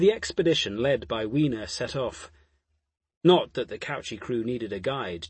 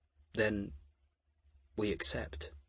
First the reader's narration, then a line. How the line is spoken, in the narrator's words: Jophiel said gently